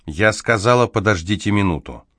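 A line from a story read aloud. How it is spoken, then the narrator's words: Firm voice. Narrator (Russian): твердым голосом добавила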